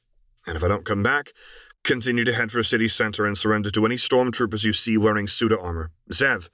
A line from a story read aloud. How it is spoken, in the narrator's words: he suddenly ordered